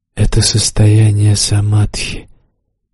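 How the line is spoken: Demon speaking quietly. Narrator (Russian): тихо сказал демон

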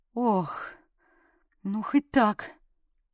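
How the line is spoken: Exhaled. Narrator (Russian): выдохнула

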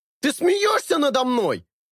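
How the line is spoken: Yelling from back seat. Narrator (Russian): вопит с заднего сиденья Джереми

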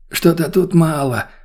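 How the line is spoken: Elderly man's sigh. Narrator (Russian): вздохнул пожилой мужик

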